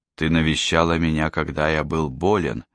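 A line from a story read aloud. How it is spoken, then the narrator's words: Plain. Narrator (Russian): сказал он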